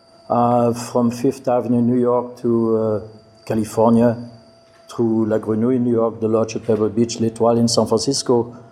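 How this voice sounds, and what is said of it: Slight French accent. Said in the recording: “there is a little thing in the accent here, I was born and raised in France”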